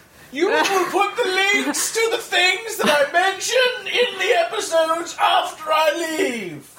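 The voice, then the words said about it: Aristocratic commanding voice. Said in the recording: “aristocratical impression of you commanding me to do things”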